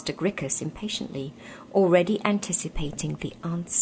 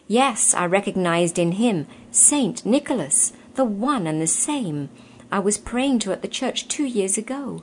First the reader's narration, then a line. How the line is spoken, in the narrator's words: exclaimed the youth